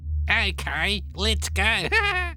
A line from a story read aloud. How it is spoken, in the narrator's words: laughed the other